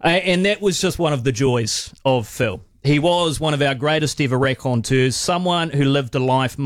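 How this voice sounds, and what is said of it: Usual voice. Nothing is said of it.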